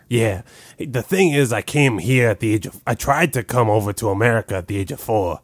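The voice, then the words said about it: Slight foreign accent. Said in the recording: “I knew I could tell you had an act. Your act, I couldn't tell where the accent was from, right. But it's there.”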